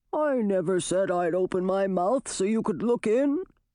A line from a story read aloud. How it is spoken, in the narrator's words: said the toad, his voice muffled by the wicker